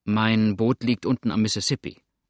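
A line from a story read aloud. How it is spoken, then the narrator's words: Plain. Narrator (German): sagte Tom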